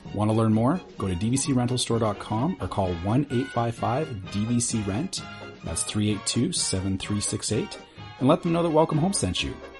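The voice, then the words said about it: Radio announcer-style voice. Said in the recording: “put on my announcer voice”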